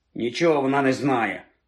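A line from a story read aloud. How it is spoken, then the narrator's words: Grumbling. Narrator (Ukrainian): буркнув вслід їй Рон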